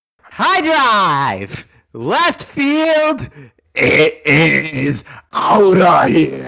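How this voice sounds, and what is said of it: Imitates a baseball announcer's home run call. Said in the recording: “your best impression? ... It was a good Kuiper call.”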